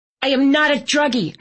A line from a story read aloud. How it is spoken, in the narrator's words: I snapped